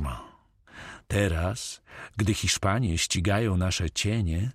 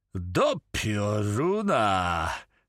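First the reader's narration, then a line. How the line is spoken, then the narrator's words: Exclaimed. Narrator (Polish): wykrzyknął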